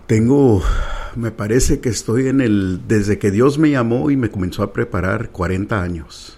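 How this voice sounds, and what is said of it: Radio announcer-like voice. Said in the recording (Spanish): “Tienes una voz de locutor.”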